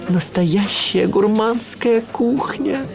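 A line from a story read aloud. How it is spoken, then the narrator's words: Breathy exhale. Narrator (Russian): выдохнул я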